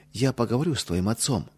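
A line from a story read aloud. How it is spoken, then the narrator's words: Soft. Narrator (Russian): мягко сказала Ядвига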